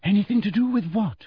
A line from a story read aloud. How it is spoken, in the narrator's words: said Hermione anxiously